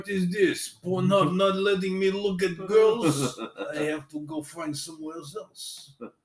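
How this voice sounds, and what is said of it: Put-on Russian accent. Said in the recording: “it's your Russian accent.”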